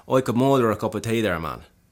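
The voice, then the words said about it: Put-on accent. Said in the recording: “a line that will help you just embody the accent again ... just makes me feel like I can get into the accent a little bit easier”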